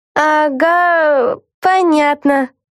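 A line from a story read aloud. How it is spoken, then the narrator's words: Confused muttering in chorus. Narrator (Russian): растерянно пробормотали все хором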